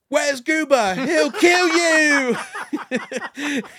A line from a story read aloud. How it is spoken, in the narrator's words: Suddenly, Janet screamed out